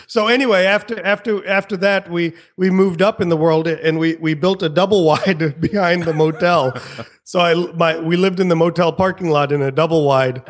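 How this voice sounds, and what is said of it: Southern American accent. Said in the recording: “with the southern accent”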